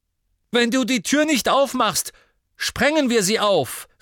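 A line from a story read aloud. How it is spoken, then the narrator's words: Called out. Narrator (German): rief Harry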